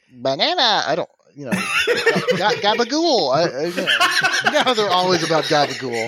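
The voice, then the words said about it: Minions cartoon character voice. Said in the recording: “your official Minions impression”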